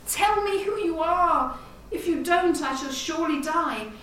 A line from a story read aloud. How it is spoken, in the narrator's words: her lover cried